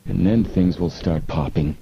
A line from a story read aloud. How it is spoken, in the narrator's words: Frank murmured